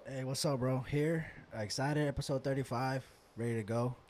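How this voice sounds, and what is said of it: Low, subdued voice. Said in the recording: “Your voice is a little low. ... I'm just a little hungover, bro.”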